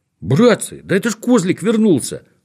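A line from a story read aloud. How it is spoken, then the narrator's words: Exclaimed. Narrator (Russian): воскликнул Незнайка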